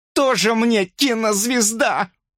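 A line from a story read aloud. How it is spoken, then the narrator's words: Screaming. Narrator (Russian): завопила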